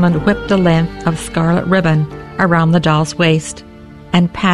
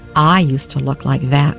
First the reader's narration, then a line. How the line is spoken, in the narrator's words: she said